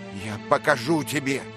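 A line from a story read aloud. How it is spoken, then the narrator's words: Furious shouting. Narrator (Russian): бешено кричал он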